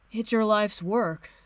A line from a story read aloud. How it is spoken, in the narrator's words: Steve says sleepily